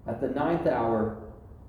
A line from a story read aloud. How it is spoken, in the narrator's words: Jesus cried out in a loud voice